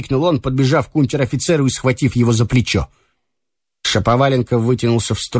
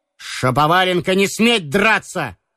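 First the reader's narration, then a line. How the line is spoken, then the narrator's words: Ashamed, angry shout. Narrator (Russian): крикнул Ромашов, весь вспыхнув от стыда и гнева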